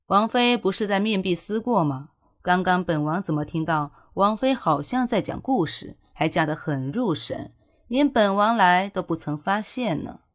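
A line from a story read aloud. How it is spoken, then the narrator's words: Cool interrogating tone. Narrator (Chinese): 淡淡的语气，看似询问，却更像是质问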